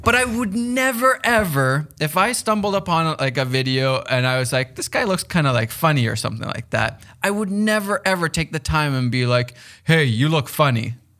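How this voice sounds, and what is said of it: Finnish accent in English. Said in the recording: “Your accent sounds ridiculous... this guy doesn't sound like me... He's a foreigner... Finland”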